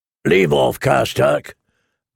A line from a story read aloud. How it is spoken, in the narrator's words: grumbled the Great John